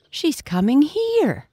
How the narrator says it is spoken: the brown pigs cried

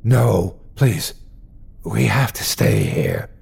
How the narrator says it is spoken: Chris tried to whisper too

